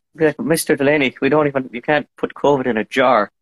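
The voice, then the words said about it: Put-on Irish accent. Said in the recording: “you whipped out the Irish accent”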